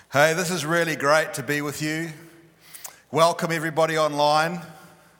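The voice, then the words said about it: Strong regional accent. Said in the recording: “those of you that will struggle with my accent”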